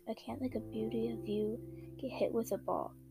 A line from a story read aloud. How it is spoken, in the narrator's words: Karu says in a low, deep voice